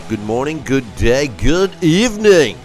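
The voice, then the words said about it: Exaggerated radio announcer voice. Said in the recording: “It's my radio voice.”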